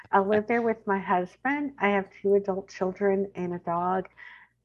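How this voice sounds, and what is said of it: Texan twang accent. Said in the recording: “You are going to hear my twang.”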